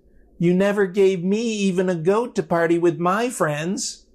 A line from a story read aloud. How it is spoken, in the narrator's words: He also whines